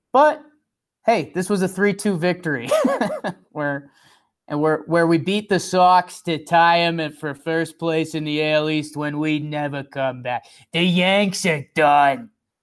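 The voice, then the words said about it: Exaggerated Boston accent. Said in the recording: “My Boston accent's starting to turn into, what's that movie where Adam Sandler has his face smushed in the whole time?”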